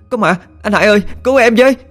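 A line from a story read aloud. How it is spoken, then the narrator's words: Frantic nonstop screaming. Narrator (Vietnamese): la lên bài hoải, miệng liên tục hét lên không ngừng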